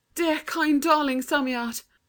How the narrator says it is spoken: said breathlessly

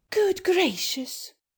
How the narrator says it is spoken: she cried

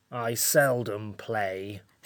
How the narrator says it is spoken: said the Samiad coldly

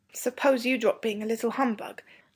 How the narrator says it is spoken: said Robert, but not crossly

